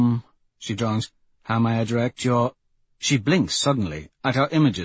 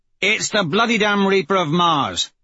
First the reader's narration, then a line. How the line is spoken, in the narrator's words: Severo barks